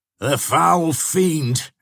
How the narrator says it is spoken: exclaimed Cedric

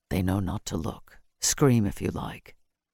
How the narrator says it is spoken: murmuring harshly

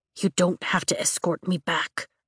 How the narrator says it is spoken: I whisper

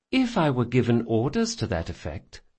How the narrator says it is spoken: she said sweetly

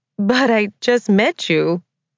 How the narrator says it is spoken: she said, laughing at his presumptuousness

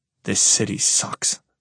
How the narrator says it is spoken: I mutter

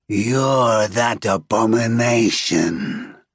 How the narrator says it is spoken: he growls, in a voice that contains many voices, so deep it vibrates through the ground

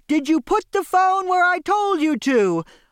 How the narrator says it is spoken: I yelled

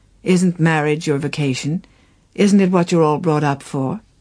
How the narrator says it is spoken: She sighed

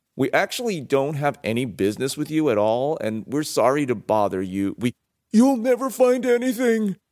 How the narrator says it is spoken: the fairy shrieked

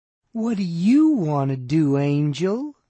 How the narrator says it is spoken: she cooed back

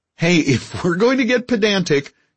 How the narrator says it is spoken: Garfield said, laughing

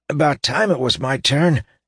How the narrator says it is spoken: gasped Weir, exaggerating his inability to breathe due to his friend's grips

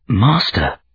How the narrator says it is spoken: he whispered, and was shocked to hear his voice so thin, so insubstantial

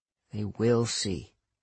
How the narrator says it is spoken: I muttered

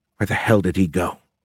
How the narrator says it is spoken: Ruckley whispered

